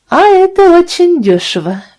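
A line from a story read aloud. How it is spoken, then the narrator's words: Cheerful. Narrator (Russian): весело сказала мадам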